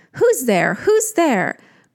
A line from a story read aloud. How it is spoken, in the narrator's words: cried the proud young porter